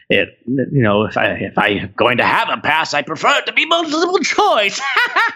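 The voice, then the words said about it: Character impression from monologue. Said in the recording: “very good impression”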